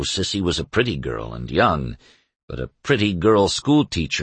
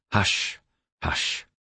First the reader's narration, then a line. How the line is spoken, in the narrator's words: He muttering to her